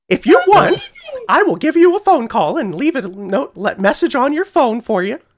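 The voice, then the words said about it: Mickey Mouse cartoon voice. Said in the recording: “So you want me to do my Mickey Mouse voice? ... That's so good.”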